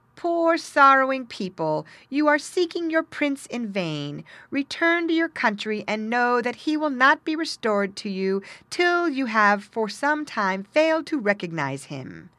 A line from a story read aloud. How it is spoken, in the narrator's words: a black monkey said